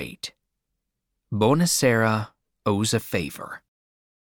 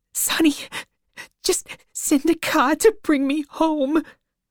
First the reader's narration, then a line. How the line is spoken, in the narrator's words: cried